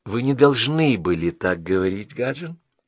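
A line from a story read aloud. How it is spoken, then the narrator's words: Said softly. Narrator (Russian): сказала она мягко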